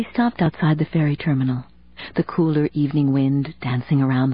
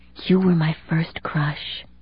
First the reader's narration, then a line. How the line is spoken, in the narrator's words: she whispered